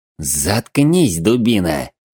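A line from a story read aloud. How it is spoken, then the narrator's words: Hissed. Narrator (Russian): прошипел Глостер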